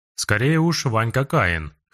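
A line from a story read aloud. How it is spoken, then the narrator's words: Wry snort. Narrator (Russian): хмыкнул Царапко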